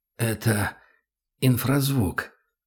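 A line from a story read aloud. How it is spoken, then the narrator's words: Hoarse rasp, dry throat. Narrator (Russian): прохрипел он, сглотнул, пытаясь прочистить высохшее горло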